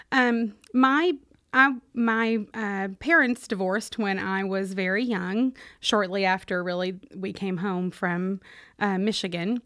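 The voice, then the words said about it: Kentucky Southern accent. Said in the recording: “all the accent is Kentucky born and bred”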